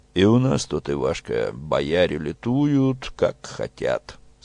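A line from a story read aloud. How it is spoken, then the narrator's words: Deep bass. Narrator (Russian): сказал Петро густым своим басом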